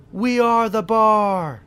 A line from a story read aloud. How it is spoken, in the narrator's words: taunt